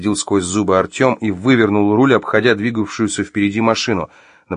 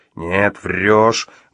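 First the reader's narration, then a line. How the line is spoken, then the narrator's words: Grumbled under breath. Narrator (Russian): буркнул себе под нос Артем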